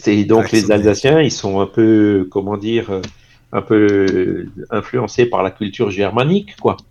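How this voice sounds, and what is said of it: Alsatian eastern French accent. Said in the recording (French): “tu reconnais peut-être que je suis alsacien avec l'accent de l'Est”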